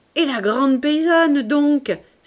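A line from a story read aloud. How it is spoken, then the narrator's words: Exclaiming. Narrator (French): s'écria Mahoudeau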